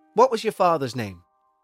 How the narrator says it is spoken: he said in a chirpy voice

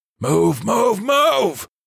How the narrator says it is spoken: the soldier barked

